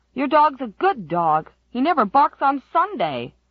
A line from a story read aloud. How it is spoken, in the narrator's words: Waddy Flagg shouted